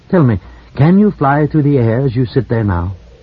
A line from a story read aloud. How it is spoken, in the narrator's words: Mallow said calmly